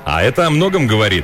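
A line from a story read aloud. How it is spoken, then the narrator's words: Cheerful. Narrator (Russian): весело добавил Риш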